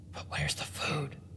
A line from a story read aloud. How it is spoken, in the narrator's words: Abigail asked in a whisper